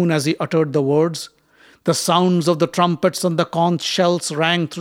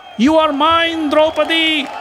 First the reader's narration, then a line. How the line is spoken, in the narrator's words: shouted some